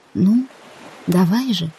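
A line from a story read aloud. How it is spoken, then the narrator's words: Whispered. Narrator (Russian): прошептала я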